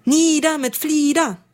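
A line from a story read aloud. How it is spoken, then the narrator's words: Roaring raven flock. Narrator (German): brüllte eines Morgens ein türkisfarbener Rabenschwarm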